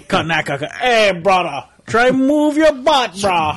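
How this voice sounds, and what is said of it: Bad put-on Hawaiian pidgin accent. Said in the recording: “It's like a pigeon spoken transformer. ... That's the worst local I've ever heard.”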